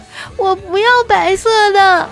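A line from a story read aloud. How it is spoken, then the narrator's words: Crying child. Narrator (Chinese): 那小男孩 哭着说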